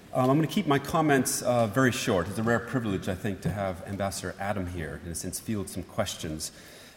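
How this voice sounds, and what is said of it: North American accent. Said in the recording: “just from the accent alone, I'm neither German nor British, but North American”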